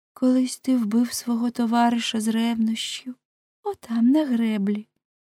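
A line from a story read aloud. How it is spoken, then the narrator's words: Soft whisper. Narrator (Ukrainian): вона тихенько зашепотіла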